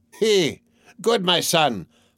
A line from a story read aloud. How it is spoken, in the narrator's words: howled a cripple